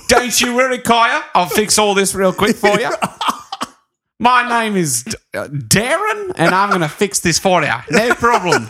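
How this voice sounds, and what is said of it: Poor put-on New Zealand accent. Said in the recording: “That's my attempt at New Zealand accent. I, I bet I nailed it. No, I didn't.”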